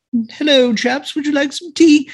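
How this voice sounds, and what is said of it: Poor put-on British accent. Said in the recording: “almost as good as Dick Van Dyke and Mary Poppins. Almost. ... you don't like my British accent.”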